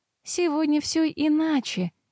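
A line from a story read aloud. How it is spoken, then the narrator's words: Gentle objection. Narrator (Russian): мягко возразила девушка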